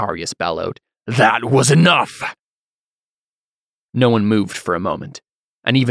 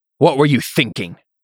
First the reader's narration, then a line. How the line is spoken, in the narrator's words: Cantarius said, his tone hostile